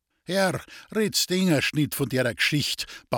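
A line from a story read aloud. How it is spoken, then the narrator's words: Old man pleading, laughing. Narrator (German): bat der alte Wallerbauer lachend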